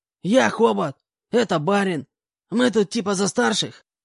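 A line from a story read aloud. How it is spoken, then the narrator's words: Hoarse voice. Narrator (Russian): представился обладатель хриплого голоса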